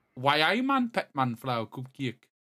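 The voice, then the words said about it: Weak attempt at Newcastle accent. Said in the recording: “I got Newcastle ... you're saying you're doing different accents, but I just hear the same one over and over again. You kind of just talk normally.”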